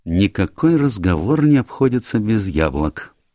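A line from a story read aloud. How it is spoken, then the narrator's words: Sad. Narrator (Russian): печально заметил Пуаро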